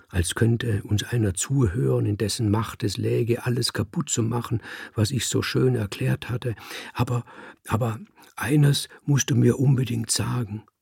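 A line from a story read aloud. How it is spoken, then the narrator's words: Brother whispering. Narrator (German): flüsterte mein Bruder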